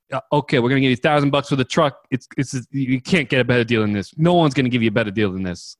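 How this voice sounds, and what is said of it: Put-on New York accent. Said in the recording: “He's got like the New York accent.”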